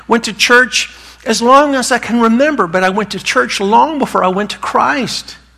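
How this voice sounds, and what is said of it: Southern North Carolina accent. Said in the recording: “I was raised in North Carolina. That's where this accent comes from.”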